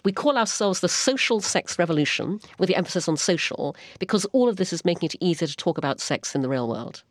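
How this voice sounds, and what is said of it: Speaks with a noticeable accent. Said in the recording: “your accent intimidates me. I just think it's so great.”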